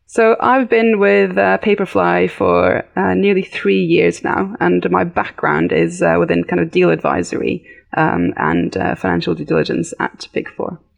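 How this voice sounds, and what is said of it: Light British English accent. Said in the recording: “you have a little bit of an accent... It doesn't sound Norwegian... I did grow up in the UK. So that's where my accent comes from.”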